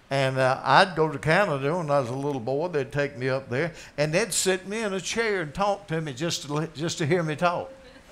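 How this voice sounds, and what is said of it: Southern US drawl. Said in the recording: “I'm from Anderson, South Carolina, with my drawl.”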